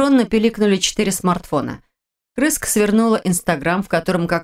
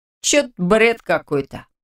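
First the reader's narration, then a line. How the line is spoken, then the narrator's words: Snorting. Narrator (Russian): хмыкнул рядом Радик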